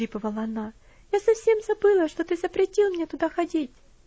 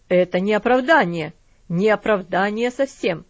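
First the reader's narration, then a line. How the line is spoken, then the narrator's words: Angry. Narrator (Russian): сердито сказал он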